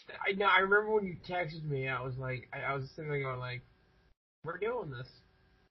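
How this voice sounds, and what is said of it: Sick-sounding voice. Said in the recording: “my voice just... Because you're still getting sick.”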